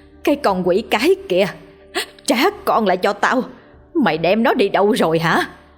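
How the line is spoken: Woman shouting. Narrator (Vietnamese): Bà ta hét lên

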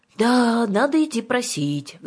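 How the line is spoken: Sighed. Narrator (Russian): вздохнула Юлька

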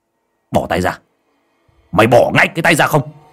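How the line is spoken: Stern shout. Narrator (Vietnamese): cậu Tẩy sắc mặt của cậu nghiêm lại mà quát

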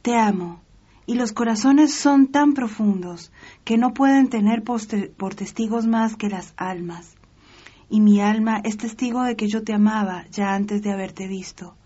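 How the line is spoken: Exclaiming from outside. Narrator (Spanish): exclamó fuera la reina

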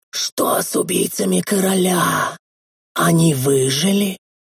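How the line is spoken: Breathed out, lord. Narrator (Russian): выдохнул лорд

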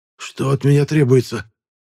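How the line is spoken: Hoarse breathless exhale. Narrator (Russian): сипло выдохнул бандит

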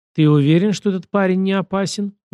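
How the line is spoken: Muffled question. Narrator (Russian): глухо спросила она

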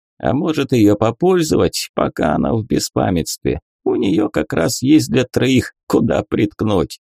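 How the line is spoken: Guffawing joker. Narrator (Russian): хохотнул шутник

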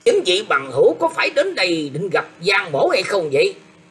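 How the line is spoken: Harsh stressed shout. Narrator (Vietnamese): Giàn Chấn Diễn gằn giọng quát rằng

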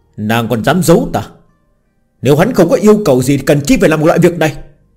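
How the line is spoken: Angry. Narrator (Vietnamese): Lê Vô Hoa tức giận nói

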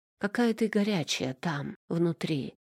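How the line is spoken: Hoarse, breaking breath. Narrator (Russian): Срываясь, хрипло выдохнул он

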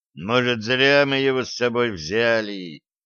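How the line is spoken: Tired question. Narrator (Russian): устало спросил Сплинтер

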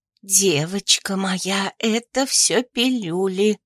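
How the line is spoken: Bitter confiding whisper. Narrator (Russian): сообщила Офелия горьким доверительным шепотом

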